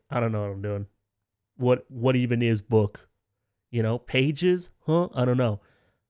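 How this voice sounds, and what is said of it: Imitates another person's voice, badly. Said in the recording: “That's a bad Neil Gaiman impression probably ... it was pretty bad. It was pretty bad.”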